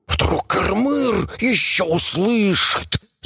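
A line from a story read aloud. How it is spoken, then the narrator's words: Hissing creatures. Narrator (Russian): зашипели шаища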